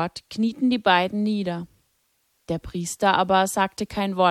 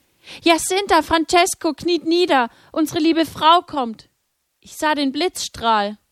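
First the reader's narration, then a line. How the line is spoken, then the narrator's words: Calling out. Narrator (German): rief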